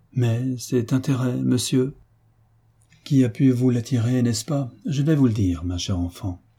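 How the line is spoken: Timid, surprised girl. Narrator (French): la jeune fille, de plus en plus surprise, lui dit timidement

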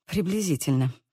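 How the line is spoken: Muttering. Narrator (Russian): забормотала

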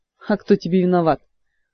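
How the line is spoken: Snorting. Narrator (Russian): фыркнул Мафей

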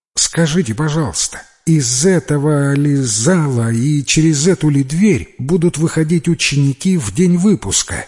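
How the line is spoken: Plain. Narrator (Russian): спросил Джимми

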